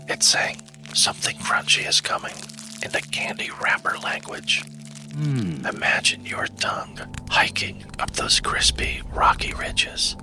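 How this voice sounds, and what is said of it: Whispering voice. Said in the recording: “this whispering thing”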